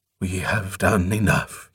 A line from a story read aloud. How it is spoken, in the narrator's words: he panted